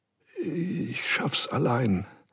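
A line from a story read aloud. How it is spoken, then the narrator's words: Stammering. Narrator (German): stammelte er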